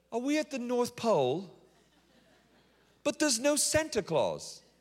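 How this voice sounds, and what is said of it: Put-on British accent. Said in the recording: “That's my best British accent.”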